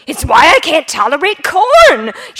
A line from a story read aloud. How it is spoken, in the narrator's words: she yells at the top of her lungs